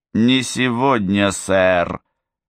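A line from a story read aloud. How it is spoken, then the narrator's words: Insolent drawl. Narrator (Russian): нагло протянула она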